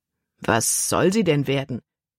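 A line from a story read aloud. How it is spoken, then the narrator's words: Plain question. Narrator (German): fragte Kapitän Norstad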